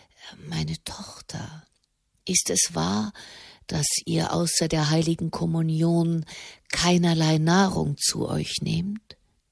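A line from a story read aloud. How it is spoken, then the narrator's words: Near whisper. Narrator (German): So leise, dass es schon fast ein Flüstern war, sagte er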